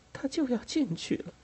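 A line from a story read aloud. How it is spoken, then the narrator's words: Satisfied sigh. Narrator (Chinese): 他满意的叹着气说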